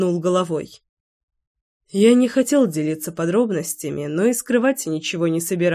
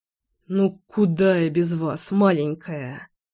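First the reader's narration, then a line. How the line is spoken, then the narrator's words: Gloomy doubtful mumble. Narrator (Russian): Хмуро пробормотал я, не до конца веря в то, что достоин этой женщины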